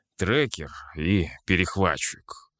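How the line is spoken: Grumbled mutter. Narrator (Russian): буркнул я

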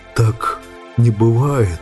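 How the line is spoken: Hoarse rustling voice. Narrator (Russian): Посаженным голосом прошелестел Сэм

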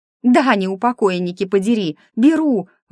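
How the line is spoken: Shouted out. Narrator (Russian): выкрикнула я

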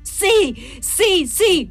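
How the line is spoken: Woman screaming. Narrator (Italian): urlò lei

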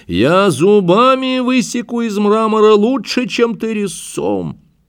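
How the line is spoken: Shouting after someone. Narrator (Russian): крикнул он вслед убегавшему скульптору

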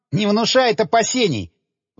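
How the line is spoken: Admiring. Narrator (Russian): Восхитился один из инструкторов

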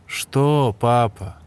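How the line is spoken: Sarcastic. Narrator (Russian): язвительно ответил сын

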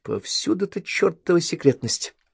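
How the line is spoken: Muttering. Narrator (Russian): пробормотала

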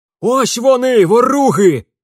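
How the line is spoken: Bursting-in shaggy peasant yelling. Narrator (Russian): завопил ворвавшийся в залу кудлатый мужик

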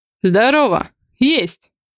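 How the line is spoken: Cold reply. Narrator (Russian): холодно отвечаю

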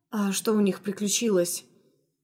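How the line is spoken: Slightly hoarse question. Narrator (Russian): Чуть хрипло осведомилась она

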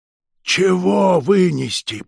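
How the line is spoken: Hiss. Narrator (Russian): прошипел

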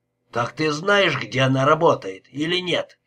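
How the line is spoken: Barked. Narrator (Russian): рявкнул Лепский

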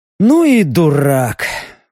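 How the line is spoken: Sigh. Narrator (Russian): вздохнул Леха

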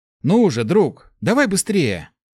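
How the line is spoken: Impatient exclamation. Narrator (Russian): Нетерпеливо воскликнул Март

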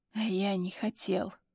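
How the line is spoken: Murmured into neck. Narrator (Russian): Выдает мне в шею

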